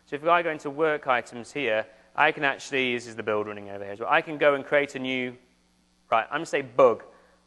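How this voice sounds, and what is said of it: English accent. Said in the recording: “I say bug really funny in my English accent”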